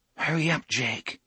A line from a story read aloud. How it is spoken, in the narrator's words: Susanna murmured